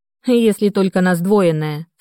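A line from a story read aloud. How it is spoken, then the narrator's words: Sarcastic snort. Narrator (Russian): саркастически хмыкнула я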